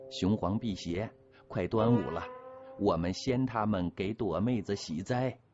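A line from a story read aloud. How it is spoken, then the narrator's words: Cheerful, easing tension. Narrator (Chinese): 唐儿喜笑颜开，尽力调节着气氛说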